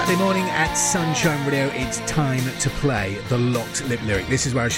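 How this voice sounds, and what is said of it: Usual voice. Nothing is said of it.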